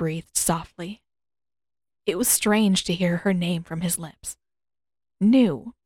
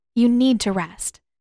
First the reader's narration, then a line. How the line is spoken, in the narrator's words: Katara replied firmly in her strictest healer voice